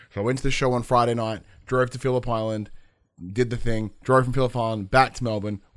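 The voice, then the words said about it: Slightly weird, worn voice. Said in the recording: “my voice is a little bit fucking weird because I just spent all yesterday screaming and all Friday just fucking yelling”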